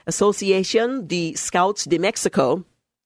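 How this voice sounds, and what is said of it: Attempted foreign accent on a name. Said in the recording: “excuse my attempt at accent”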